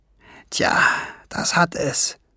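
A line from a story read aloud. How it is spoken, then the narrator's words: Murmured. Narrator (German): murmelte Schwefelfell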